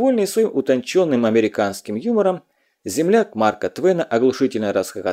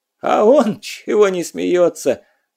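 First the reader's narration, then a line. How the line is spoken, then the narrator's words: Tearful question. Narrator (Russian): сквозь слезы поинтересовался охранник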